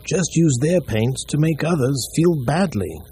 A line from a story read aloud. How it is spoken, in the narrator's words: the old one said sadly